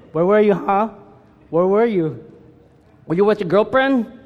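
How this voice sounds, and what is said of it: Put-on Filipino accent, scolding parent. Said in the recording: “You always have to speak in a Filipino accent when you talk about your parents.”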